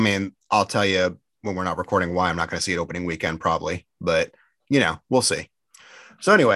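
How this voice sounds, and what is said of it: Usual voice. Nothing is said of it.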